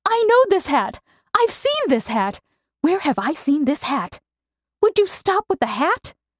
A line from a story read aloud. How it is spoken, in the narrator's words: Her sister cried